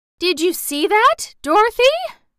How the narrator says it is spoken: she gasped

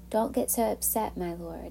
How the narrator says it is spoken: Aaron replied

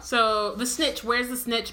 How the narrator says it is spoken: bellowed Charlie

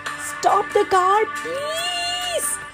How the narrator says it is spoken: David pleaded

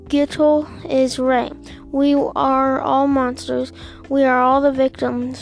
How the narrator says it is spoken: Rivka said

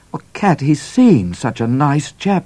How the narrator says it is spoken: cried Midnight

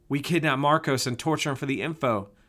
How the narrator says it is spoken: blurted

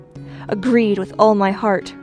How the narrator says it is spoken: cried the plowboy

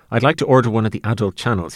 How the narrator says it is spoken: he says in a hoarse stammer

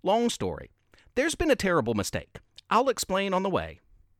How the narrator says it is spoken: Jingle quickly replied

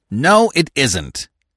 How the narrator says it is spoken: snapped Mr

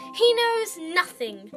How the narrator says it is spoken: the girl snapped

